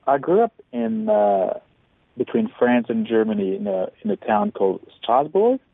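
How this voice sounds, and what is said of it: Wonderful, beautiful accent. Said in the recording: “You have a wonderful accent. It's beautiful.”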